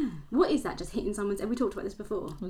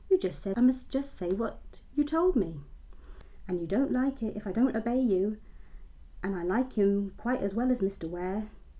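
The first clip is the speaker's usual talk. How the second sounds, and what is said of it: Put-on West Country accent. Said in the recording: “You just did a regional accent ... my West Country accent”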